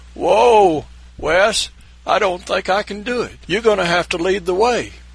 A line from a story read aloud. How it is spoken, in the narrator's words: hollered